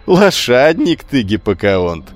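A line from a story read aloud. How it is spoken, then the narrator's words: Shout through laughter. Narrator (Russian): сквозь смех крикнул он спартанцу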